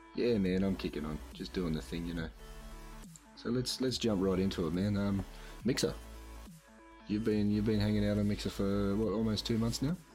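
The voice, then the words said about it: Sore-throated, slightly rough voice. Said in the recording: “sore throat. You can probably still hear it in my voice”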